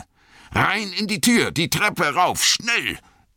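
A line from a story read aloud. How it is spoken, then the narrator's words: Roaring. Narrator (German): brüllte Gandalf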